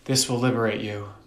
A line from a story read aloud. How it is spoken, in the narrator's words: Mordecai whispered to her